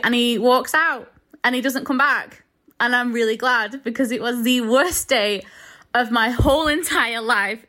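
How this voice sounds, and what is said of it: Lancaster accent. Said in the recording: “I used to date a girl from Lancaster and I have got a weird thing where I absolutely love that accent ... blessing my ears with your accent”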